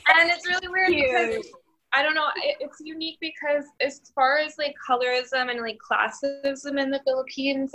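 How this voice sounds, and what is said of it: Valley Girl accent. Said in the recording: “somehow, like, a Valley Girl accent”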